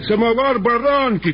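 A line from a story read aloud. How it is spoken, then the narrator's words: Shouting. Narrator (Russian): крикнул кум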